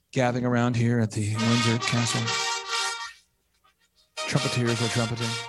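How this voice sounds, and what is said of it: Golf announcer voice. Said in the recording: “I'll kind of get into my golf announcer voice here.”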